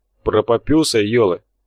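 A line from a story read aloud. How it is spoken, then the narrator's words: Tactless snort. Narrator (Russian): хмыкнул не отличавшийся деликатностью Дхар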